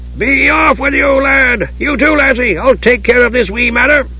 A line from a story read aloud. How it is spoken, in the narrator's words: Dugan yelled over at Palin and Osher